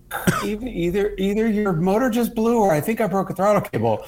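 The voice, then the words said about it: Spot-on impression of a friend. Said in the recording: “That was a very good Randy impression... You really had, you fucking nailed that.”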